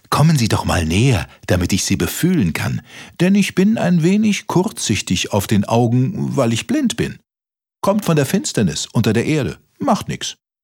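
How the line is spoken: Called out. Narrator (German): rief der Maulwurf

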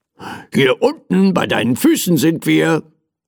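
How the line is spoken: Teddy bear calling impatiently. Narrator (German): rief mein Teddy ungeduldig

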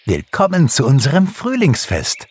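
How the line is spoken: Calling out. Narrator (German): rief Pixie

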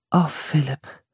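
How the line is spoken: Soft. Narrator (German): sagte Priscilla leise

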